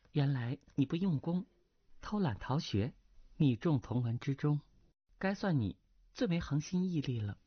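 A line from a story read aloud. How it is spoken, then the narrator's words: Soft light laugh. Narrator (Chinese): 那女子轻轻一笑道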